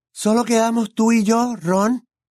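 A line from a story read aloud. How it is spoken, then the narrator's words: Exclaimed. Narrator (Spanish): exclamó Tonks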